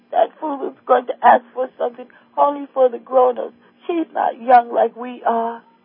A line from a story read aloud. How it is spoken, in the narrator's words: they cried